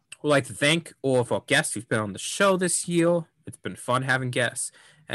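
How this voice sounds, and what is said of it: Usual voice. Nothing is said of it.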